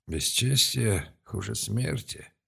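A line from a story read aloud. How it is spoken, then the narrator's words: Muffled, pained. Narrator (Russian): глухо произнес сын Олстер, и в его глазах на миг промелькнули боль и переживания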